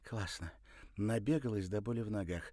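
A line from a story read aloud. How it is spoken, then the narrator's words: Cheerful. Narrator (Russian): весело сказала она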